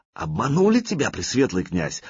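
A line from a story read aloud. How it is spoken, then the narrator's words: Fervent exclamation. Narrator (Russian): с жаром воскликнул смерть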